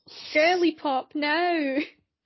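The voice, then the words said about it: Put-on Australian accent. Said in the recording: “What's the accent? ... Australian. ... It's Australian. ... I thought it was Stewie from Family Guy. I was like, that wasn't a very good Stewie from Family Guy ... That was better.”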